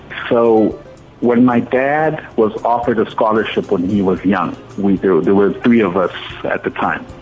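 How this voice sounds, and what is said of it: Distinctive local accent. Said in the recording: “my funny accent”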